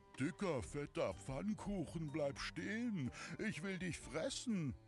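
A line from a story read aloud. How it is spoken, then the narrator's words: Horse calling out. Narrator (German): kam ein Pferd herbeigesprungen und rief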